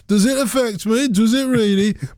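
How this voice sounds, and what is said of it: Put-on Birmingham (Brummie) accent. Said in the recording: “In my Brummie accent”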